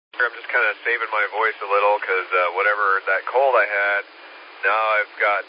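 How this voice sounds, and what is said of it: Scratchy, hoarse voice. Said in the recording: “my voice was tough yesterday, and today it's still a little scratchy and hoarse ... you sound a little rough this morning”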